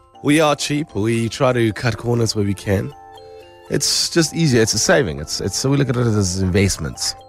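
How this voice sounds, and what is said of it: Deeper voice from being sick. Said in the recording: “my voice gets deeper when I'm sick ... why does ... voice get deeper when he's sick?”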